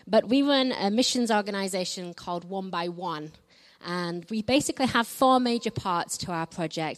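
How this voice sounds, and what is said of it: Northern English accent. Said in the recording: “if you've not gathered from the accent already, I'm from England. I'm from the north of England, so I don't quite speak like the Queen.”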